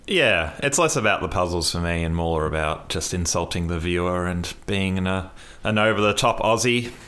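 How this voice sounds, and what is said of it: Australian accent. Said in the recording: “if you can't tell from the accent, ... is from Australia.”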